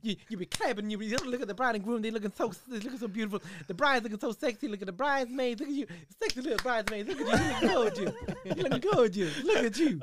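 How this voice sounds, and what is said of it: Lively imitation of another person's voice. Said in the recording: “when you're doing Eddie Murphy, man, in the wedding ... it's a lively impression”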